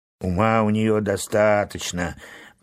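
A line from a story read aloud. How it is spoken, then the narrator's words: Grumble. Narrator (Russian): проворчал моряк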